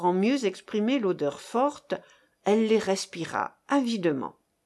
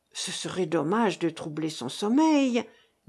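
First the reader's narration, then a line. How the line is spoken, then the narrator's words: Murmuring. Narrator (French): murmura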